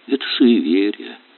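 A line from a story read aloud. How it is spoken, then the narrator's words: Soft but confident. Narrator (Russian): мягко, но уверенно сказал Олег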